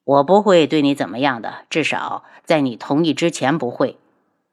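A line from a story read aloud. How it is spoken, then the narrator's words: Sighing. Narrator (Chinese): 男子叹了口气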